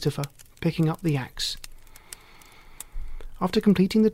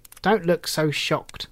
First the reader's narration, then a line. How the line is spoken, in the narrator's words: said the hermit